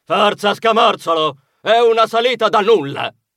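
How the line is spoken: Shouted. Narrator (Italian): Iena gridò

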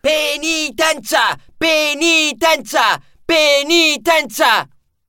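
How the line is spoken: Shouting. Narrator (Italian): un carro funebre cominciò a gridare

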